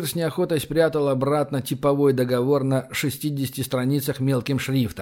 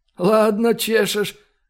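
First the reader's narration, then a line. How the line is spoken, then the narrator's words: Amused snort. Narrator (Russian): хмыкнул Михайло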